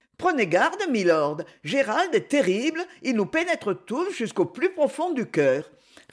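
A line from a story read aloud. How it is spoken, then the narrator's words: Cheerful reply. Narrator (French): répliqua gaiement Lady Isabelle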